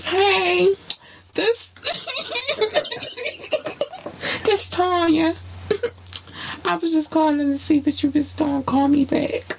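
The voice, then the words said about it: Cute put-on girly voice. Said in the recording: “putting on a cute voice”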